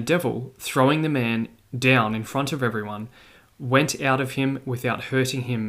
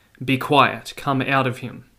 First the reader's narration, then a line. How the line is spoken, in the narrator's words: Jesus said sharply